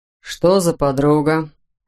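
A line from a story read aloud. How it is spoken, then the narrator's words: Indifferent question. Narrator (Russian): спросил инспектор безразличным тоном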